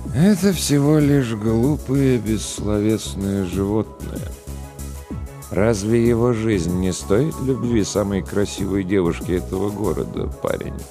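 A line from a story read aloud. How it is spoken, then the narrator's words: Sad sigh. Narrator (Russian): Грустно вздохнул Голубоглазый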